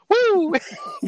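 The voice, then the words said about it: Imitates another person's signature shout. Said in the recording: “Ric Flair for no reason ... doing that impression of Ric Flair too”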